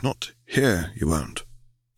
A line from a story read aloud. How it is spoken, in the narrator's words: said Tom quietly